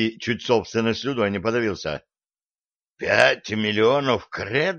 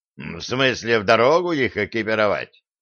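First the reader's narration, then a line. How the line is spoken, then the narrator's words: Incredulous dwarf's snort. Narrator (Russian): недоверчиво хмыкнул гном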